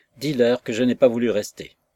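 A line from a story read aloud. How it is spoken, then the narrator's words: Authoritative tone. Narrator (French): d'un ton autoritaire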